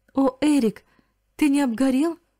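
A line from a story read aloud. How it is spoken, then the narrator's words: Ecstatic exclamation. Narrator (Russian): воскликнула она вне себя от радости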